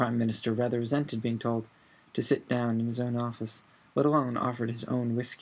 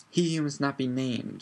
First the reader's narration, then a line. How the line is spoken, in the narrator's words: snarled Fudge